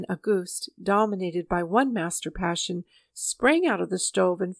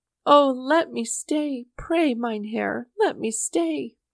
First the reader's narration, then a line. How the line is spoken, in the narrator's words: he sobbed